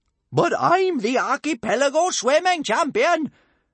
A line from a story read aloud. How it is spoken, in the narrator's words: shouted big-boobied Bertha